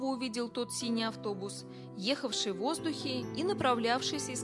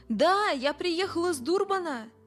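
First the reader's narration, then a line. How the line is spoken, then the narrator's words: Shouted reply. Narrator (Russian): закричал в ответ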